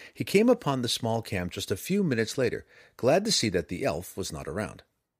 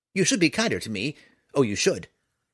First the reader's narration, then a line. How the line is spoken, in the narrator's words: snapped right back